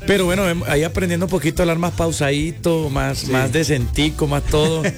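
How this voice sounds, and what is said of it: Mixed Colombian-Venezuelan regional accent. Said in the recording (Spanish): “tienes como un mix de acentos que no se logra como percibir bien de dónde eres ... Llanero por una parte y costeño por el otro lado ... se me sale como un poquito más la parte llanera”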